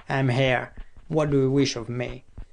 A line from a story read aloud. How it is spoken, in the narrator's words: said harshly